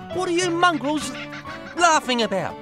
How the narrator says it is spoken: he shouted

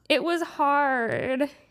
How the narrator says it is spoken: he whined

